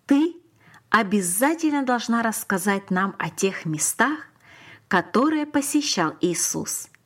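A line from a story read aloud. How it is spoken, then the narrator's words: Plain. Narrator (Russian): сказала учительница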